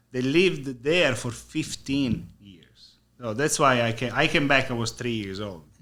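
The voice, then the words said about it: Italian-accented English. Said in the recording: “my accent, obviously. I'm Italian ... you have a little broken English ... Broken. Very broken.”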